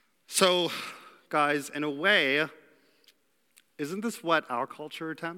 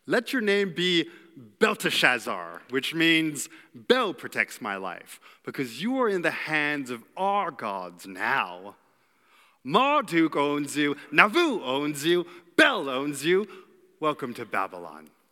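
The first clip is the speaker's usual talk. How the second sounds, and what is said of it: Medieval evil villain accent. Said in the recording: “had a medieval evil accent”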